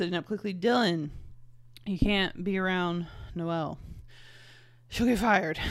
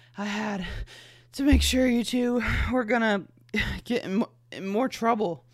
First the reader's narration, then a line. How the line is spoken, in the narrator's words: she breathed